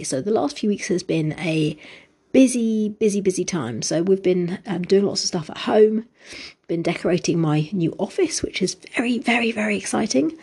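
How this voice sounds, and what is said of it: Deeper voice, sounds unwell. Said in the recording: “I am not my usual sounding voice ... my voice is a bit deeper than usual because not been too well this week”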